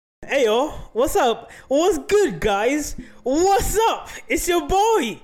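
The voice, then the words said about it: Yelling, loud energetic greeting. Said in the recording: “I don't know why I'm yelling.”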